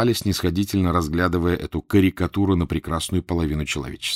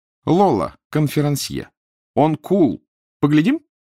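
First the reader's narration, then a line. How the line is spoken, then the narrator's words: Shrill announcing voice. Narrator (Russian): Господин Лола визгливым голосом объявил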